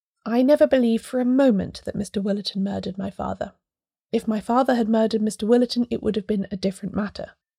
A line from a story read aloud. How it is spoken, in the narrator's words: she began in a quiet, even voice